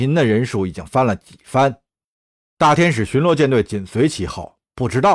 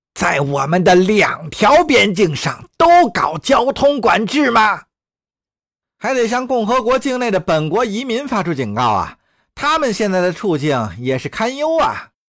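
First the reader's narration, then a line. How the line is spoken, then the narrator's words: Throat-clearing reminder. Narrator (Chinese): 阿让清了清嗓子，提醒说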